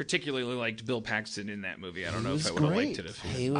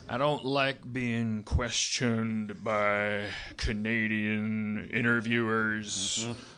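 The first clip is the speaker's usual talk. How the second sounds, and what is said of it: Quiet imitation of another person's voice. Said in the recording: “my Billy Bob Thornton impression ... It's good ... He's got the most powerful, like, quiet voice in all of movies. He says it so quietly.”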